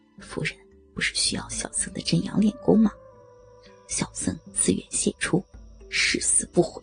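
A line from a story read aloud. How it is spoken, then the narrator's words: Soft, quiet. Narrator (Chinese): 他轻声道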